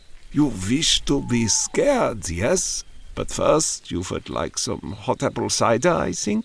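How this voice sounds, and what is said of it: European-accented elderly man's voice. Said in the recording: “in an accent that bespoke a European origin”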